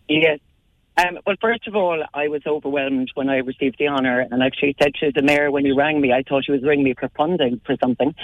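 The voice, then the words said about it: Slightly hoarse voice. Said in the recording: “Slightly hoarse after screaming my team on Saturday, but it was worth losing my voice.”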